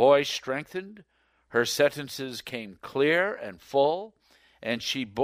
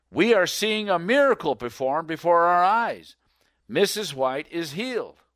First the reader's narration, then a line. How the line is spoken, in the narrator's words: Montrose, a businessman from the town, exclaimed